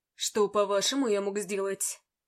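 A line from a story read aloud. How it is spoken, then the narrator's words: Cold question. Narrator (Russian): холодно спросил он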